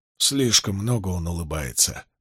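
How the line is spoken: Young man muttering. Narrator (Russian): пробормотал юноша

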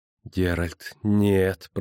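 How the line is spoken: Moaning. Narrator (Russian): простонал Лютик

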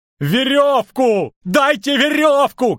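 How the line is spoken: Shouting. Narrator (Russian): кричал Лютик

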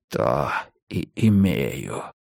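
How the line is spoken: Hissed, giant. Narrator (Russian): прошипел великан

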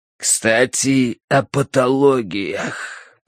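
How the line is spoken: Harsh rasping wheeze. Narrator (Russian): прохрипел Джек Хардвик голосом человека с упоением умирающего от рака горла

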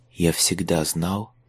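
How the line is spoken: Quiet. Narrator (Russian): тихо проговорил Майлз

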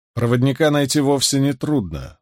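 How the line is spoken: Dry tone. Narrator (Russian): сухо сказал Руарк

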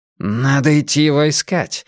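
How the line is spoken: Exclaiming. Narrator (Russian): воскликнул Блор

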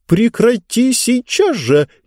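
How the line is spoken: Nervous shriek. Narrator (Russian): нервно взвизгнула книга

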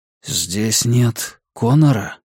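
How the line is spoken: Whispered reply. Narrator (Russian): ответил он тоже шепотом

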